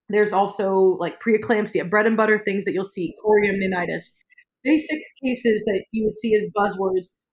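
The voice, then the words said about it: Voice sounds unwell, stuffy. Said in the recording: “I'm a little bit allergy ridden ... I sound terrible”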